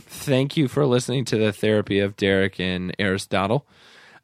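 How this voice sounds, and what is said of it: Worn-out, strained voice. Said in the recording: “before my voice is completely shot”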